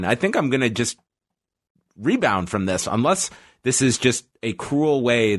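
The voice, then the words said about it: Voice affected by a cold. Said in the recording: “you can probably hear in my voice. ... I'm still a little bit have the effects of a cold”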